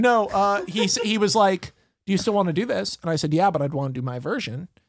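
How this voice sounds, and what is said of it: Usual voice. Nothing is said of it.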